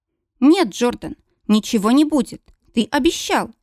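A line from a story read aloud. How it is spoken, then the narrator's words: Surprisingly firm, young woman. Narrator (Russian): на удивление твердым голосом произносит девушка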